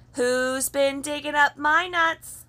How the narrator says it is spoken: said Silvertail Squirrel, and he shouted into the hole

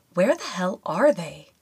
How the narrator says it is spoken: She muttered in a worried tone

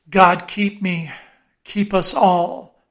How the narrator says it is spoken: murmured Starbuck, lowly

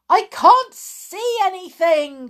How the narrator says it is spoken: cried the porter

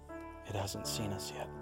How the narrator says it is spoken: he said quietly

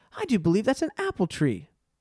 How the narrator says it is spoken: exclaimed Lucy

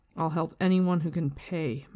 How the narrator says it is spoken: Matt said firmly

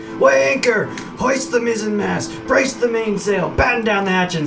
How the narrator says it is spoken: in his excitement, Bazim starts yelling things like

